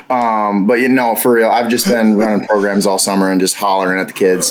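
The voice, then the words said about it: Slightly hoarse voice. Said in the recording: “Your voice doesn't sound that bad ... losing a little bit because you're doing a lot of yelling ... partial like allergies ... my voice is just is changing ... a little hoarse today”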